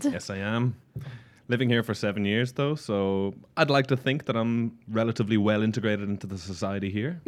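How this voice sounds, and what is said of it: Irish accent. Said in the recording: “as you may tell from his accent, is from Ireland.”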